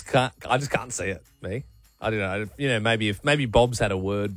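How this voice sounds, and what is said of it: Usual voice. Nothing is said of it.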